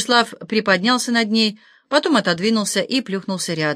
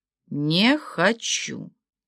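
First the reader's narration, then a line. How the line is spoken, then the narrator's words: Hissing. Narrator (Russian): прошипела Валерия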